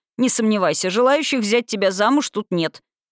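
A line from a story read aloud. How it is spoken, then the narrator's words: Laughing reassurance. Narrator (Russian): Парень рассмеялся и заверил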